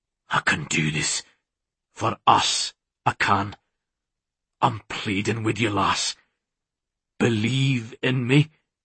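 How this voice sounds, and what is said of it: Hoarse, pleading male character voice. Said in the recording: “In a hoarse voice, he said,”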